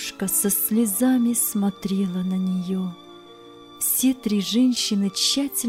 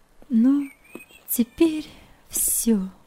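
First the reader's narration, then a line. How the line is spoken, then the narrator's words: Trembling voice, to nobody. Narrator (Russian): дрогнувшим голосом сказала Нелли, как бы в пространство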